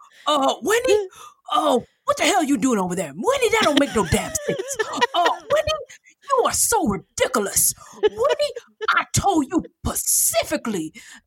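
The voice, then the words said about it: Impression of her dad. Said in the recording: “Hours long impressions of my dad”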